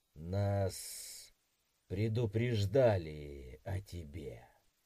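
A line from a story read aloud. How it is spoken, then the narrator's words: Creaky voice. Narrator (Russian): произнес скрипучим голосом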